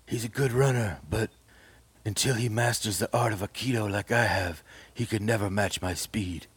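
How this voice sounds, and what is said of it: Imitates another person's voice. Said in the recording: “let me see if I can do a Steven Seagal impression”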